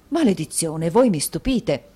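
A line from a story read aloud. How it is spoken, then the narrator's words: Exclaimed. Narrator (Italian): esclamò Mantalini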